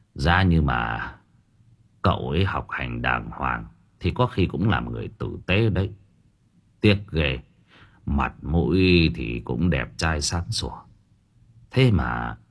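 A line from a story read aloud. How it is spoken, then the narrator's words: Muttering. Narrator (Vietnamese): Bác sĩ lẩm bẩm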